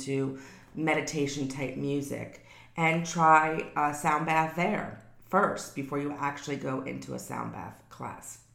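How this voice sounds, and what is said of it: Sick, strained voice. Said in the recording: “I guess I'm coming down with something ... my voice is hurting me to talk right now”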